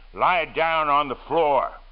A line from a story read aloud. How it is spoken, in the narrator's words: the black man said sternly